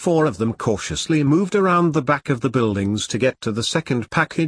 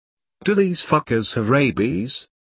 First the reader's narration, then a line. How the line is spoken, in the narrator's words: asked in a low voice